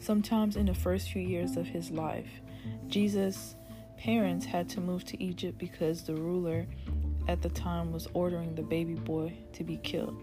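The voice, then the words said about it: Speaker's own accent. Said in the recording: “My accent keeps coming out.”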